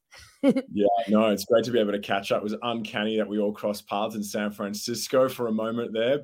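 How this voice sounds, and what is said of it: Australian accent. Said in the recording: “from back here in Australia. I'm sure your listeners worked that out from my accent straight away.”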